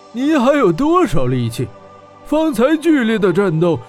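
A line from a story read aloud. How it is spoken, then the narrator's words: Sneering. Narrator (Chinese): 白吉冷笑道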